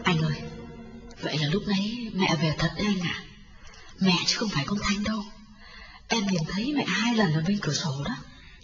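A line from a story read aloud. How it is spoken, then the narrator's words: Whisper. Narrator (Vietnamese): Hương thì thầm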